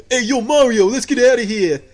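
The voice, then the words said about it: Put-on Brooklyn accent. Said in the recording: “he has like this Brooklyn accent”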